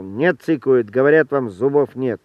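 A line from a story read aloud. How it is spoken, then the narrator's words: Gruff bark. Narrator (Russian): Роман рявкнул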